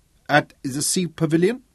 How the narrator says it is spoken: he asked

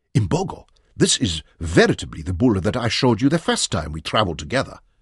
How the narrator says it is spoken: Loycott exclaimed, and danced with excitement

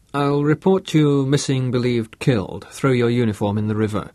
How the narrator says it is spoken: said Bruce

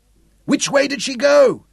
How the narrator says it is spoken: Zuger shouted at the stewards below the flag

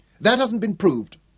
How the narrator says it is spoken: Rhodes cut in sharply

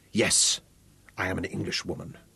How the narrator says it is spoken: agreed icily

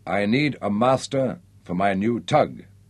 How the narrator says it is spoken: said Nick

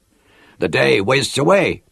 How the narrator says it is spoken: cried

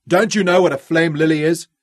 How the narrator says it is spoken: Ralph shouted at them

